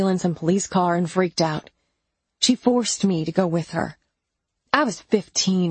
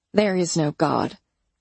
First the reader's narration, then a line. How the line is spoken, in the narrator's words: I grumbled